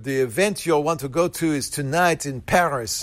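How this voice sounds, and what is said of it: Put-on French accent. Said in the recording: “good accent.”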